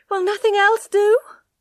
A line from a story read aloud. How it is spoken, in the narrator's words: cried Tess in despair